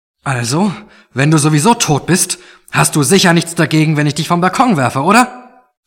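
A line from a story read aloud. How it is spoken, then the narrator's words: Loud. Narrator (German): sagte Mark laut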